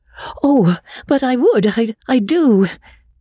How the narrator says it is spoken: Magnolia cried hastily

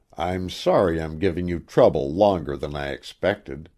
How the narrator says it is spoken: he gasped

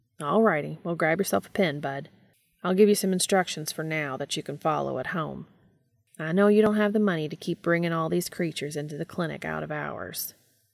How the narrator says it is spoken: Garth offered kindly

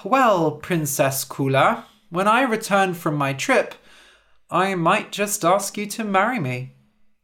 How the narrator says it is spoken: The prince sighed and said

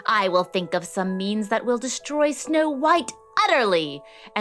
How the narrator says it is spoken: she screeched

